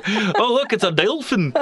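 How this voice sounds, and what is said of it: Put-on Australian accent. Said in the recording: “You're dead on Australian. It's like you're there right now.”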